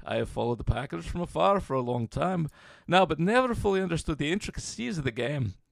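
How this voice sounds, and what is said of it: Put-on Liverpool Scouse accent. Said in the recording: “that's the best Liverpool accent I've ever heard... Scouser.”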